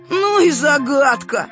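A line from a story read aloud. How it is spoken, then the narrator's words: Snorted. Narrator (Russian): хмыкнул Павлик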